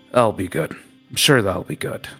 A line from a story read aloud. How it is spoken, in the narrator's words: He's just mumbling